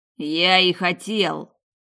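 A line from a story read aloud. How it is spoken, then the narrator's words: Husband barking. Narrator (Russian): рявкнул муж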